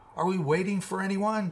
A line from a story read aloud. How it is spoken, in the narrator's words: Stretch yelled above the howling wind